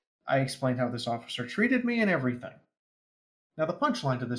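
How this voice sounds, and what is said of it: Usual voice. Nothing is said of it.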